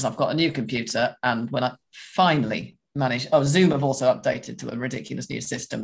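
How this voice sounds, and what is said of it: Slightly hoarse, deeper than usual voice. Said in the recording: “my voice sounds a little bit hoarse or deeper than usual”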